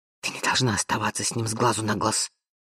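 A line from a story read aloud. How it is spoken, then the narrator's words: Sister hissing. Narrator (Russian): прошипела сестра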